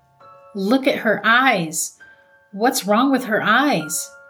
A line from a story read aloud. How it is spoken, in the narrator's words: cried